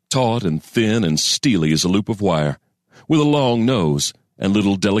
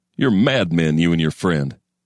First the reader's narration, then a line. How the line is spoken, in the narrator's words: he'd have laughed, a snorting bull's laughter